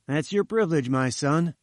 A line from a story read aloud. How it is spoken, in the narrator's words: said Malone